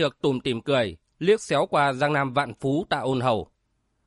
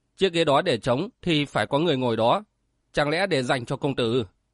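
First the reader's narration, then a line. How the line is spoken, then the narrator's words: Smiling. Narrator (Vietnamese): Tiểu Chi mỉm cười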